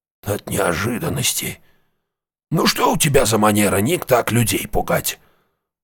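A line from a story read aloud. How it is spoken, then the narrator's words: Old man's grumbling. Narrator (Russian): проворчал старик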